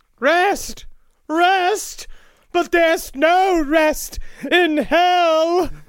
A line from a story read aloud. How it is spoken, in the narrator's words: D cried